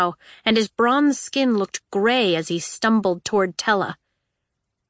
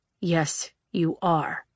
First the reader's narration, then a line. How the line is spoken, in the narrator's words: he murmured